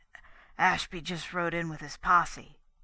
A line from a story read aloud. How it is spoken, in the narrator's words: announced huskily